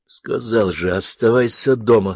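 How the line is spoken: Wheezed through teeth. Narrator (Russian): сквозь зубы просипел Георгий

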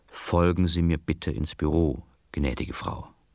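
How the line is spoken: Quiet speech. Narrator (German): Der Beamte ... sagte leise

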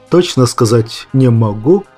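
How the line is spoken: Plain. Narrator (Russian): ответил командир

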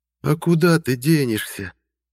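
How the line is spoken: Tender sing-song, witch. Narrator (Russian): Ласково пропела ведьма

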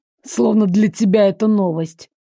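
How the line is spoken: Scoffing. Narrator (Russian): хмыкнул Миша

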